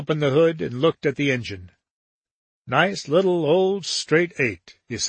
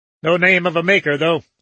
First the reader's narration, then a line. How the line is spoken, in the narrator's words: snapped Dickinson